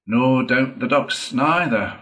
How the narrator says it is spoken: replied the rat cheerfully

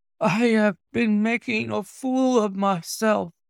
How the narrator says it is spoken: he gasped

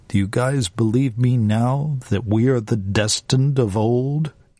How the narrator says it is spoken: Dega asked

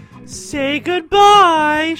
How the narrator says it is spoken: she said cheerfully

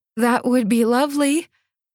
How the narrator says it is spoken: I called, trying to stifle a moan

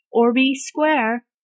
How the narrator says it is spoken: Bradley called after him

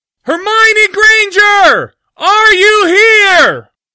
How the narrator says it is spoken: shouted as loudly as he could

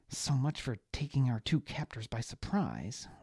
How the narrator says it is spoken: Liana muttered

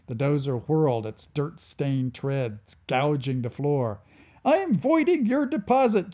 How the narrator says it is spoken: chirped Yanni No's remaining collector droid

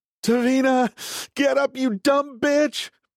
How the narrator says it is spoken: Peter shouting at her

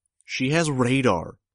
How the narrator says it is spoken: shouted, my voice barely audible to myself

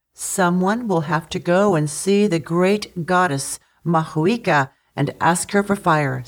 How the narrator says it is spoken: said Taranga

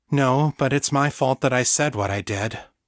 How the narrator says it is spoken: Danny said

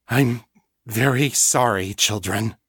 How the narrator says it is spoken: she said, her voice rough with suppressed emotion

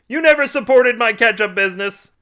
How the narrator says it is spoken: Carl shouted

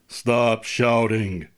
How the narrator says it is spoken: the detective said more calmly than he felt

